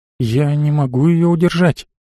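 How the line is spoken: Whispered in ear. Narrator (Russian): шепотом сказала Анита на ухо Марии

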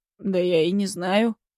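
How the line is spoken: Snorting. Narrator (Russian): хмыкнул

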